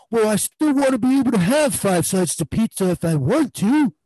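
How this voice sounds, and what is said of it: Imitates another person's voice. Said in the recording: “was that your equivalent of the David voice ... that was David's voice ... I think I hit the nail on the head there”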